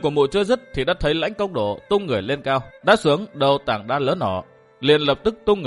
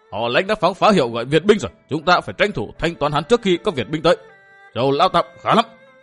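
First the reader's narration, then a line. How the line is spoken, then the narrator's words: Crazed laughter, loud shouting. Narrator (Vietnamese): Cất lên một tràng cười như điên dại, Đông Đại Nương thét lớn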